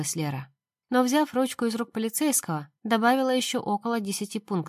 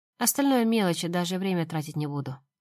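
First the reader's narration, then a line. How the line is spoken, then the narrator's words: Tired speech. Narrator (Russian): устало сказала она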